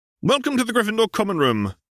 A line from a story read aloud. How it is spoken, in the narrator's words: exclaimed Percy